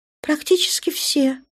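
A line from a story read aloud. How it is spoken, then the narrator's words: Calm reply. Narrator (Russian): спокойно отозвалась Светлая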